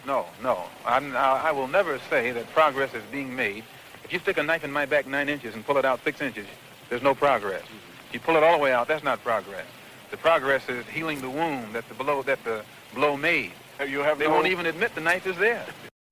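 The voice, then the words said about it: Fast, hearty speech. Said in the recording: “I'm talking so fast and so hearty.”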